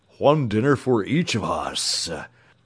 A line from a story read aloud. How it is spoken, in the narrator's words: rumbled the Cowardly Lion